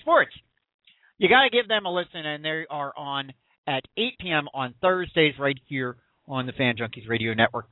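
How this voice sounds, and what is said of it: Philadelphia accent. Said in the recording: “I got this Philadelphia accent going.”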